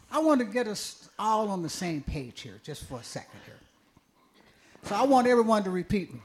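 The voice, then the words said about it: Texas accent. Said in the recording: “It's that Texas accent, y'all.”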